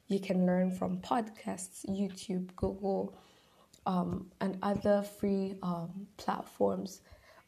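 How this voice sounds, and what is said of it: Low, sick-sounding voice. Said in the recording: “my voice is a little bit low ... I'm a little bit sick”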